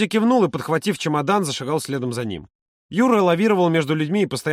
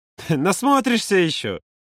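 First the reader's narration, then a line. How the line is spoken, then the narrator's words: Laughing promise. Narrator (Russian): Смеясь, пообещал Юра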